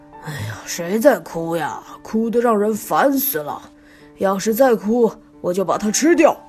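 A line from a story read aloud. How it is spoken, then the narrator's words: Angry roar. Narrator (Chinese): 橡皮狮子生气了，大吼一声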